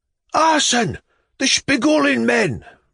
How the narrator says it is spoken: roared the crowd

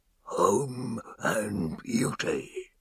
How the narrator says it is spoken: He ... growled

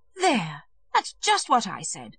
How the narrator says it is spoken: exclaimed the lady

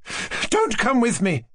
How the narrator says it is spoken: she cried to him

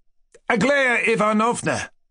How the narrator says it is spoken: cried Kolya

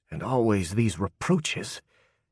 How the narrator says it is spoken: he whispered

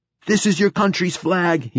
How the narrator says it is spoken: he cried

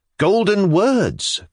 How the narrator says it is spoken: cried Stavrogin

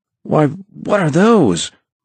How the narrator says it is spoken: cried Tom

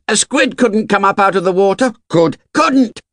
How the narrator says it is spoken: Someone shouted

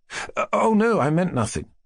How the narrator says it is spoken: faltered Mushkin

